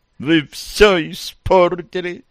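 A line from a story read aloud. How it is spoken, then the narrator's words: Sobbing. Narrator (Russian): Роксана всхлипнула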